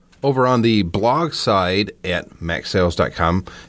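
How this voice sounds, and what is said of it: Usual voice. Nothing is said of it.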